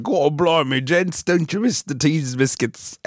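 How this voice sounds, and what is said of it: Bad fake British accent. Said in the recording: “they'd shoot you because it was a bad accent.”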